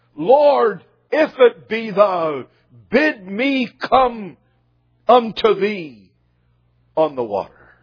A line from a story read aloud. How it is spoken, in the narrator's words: immediately Peter cried